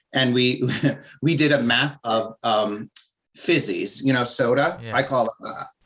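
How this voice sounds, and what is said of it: Strong New Jersey New York accent. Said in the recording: “I have a very strong New Jersey, New York accent.”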